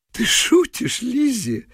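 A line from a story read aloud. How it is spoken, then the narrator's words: Laughing. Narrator (Russian): смеялся японец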